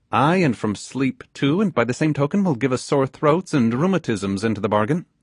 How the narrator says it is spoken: cried, with evident dislike at the idea

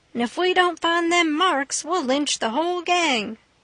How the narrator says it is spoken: they all shouted

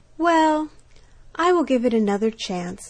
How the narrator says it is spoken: sighed the duck

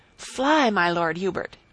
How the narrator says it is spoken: he cried

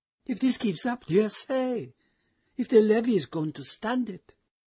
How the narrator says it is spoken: she exclaimed

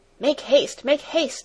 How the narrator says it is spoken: he cried in a hurried voice

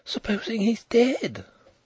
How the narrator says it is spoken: Nelly breathed, aghast

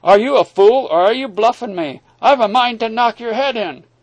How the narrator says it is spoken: cried

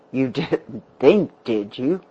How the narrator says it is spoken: the man laughed bitterly

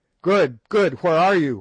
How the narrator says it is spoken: we shouted in terrified distress

